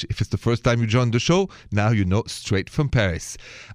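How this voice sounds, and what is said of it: French accent. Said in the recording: “my accent is French”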